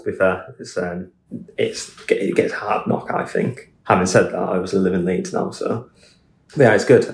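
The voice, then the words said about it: Hull accent. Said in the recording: “that delightful accent that you have ... it's a delightful little Hull accent”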